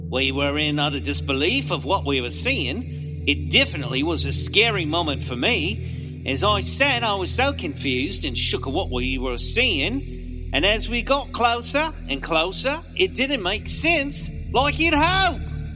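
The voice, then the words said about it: Poor put-on Australian accent. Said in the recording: “I'm terrible at Australian accents, in case you couldn't tell.”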